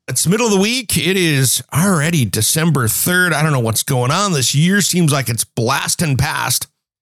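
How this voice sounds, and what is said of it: Scratchy voice. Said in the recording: “Sorry about my cold, guys, working through that, so my voice is a little bit scratchy today.”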